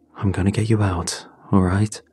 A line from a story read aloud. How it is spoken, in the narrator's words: I said, trying to keep my voice steady